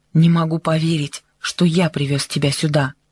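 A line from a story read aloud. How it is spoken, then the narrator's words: Said angrily. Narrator (Russian): сердито сказал Хонг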